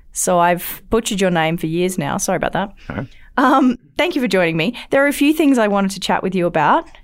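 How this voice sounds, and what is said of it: Non-North American accent. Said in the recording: “I have problems with some um, North American words. I think it's just my accent.”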